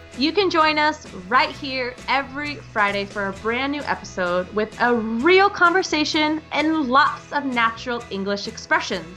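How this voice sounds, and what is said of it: American English accent. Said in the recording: “the accent you hear is the American English accent. I'm coming to you from the U.S.”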